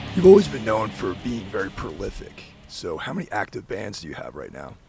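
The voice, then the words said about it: Hoarse, strained voice. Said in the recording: “my voice is obviously shot during this recording”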